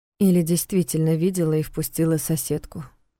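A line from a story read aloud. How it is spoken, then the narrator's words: Flat objection. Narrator (Russian): бесцветным голосом возразила Диана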